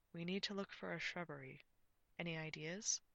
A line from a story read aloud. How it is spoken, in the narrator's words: Lancelot said quietly